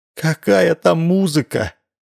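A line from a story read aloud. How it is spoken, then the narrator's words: Sighing. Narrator (Russian): вздохнула Гаврилова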